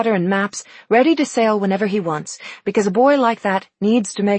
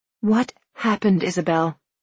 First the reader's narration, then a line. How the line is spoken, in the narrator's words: I said softly